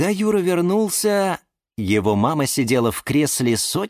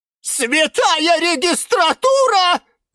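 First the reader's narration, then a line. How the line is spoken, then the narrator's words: Shrieking. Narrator (Russian): завизжала Розалия Львовна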